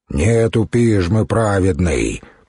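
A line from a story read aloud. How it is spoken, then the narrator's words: Deep bass voice. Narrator (Russian): пробасил один из державших Людмилу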